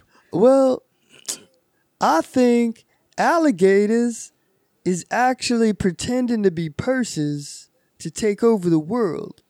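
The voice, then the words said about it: Put-on Southern accent. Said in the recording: “He's always got to have a southern accent.”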